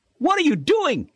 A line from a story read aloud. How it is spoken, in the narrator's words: Shelby yelled